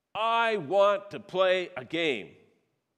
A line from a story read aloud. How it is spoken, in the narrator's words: he screamed very loudly, louder than ever before